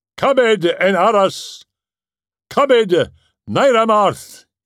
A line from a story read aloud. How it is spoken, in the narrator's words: cried